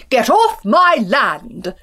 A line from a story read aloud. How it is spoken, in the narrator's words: he shouted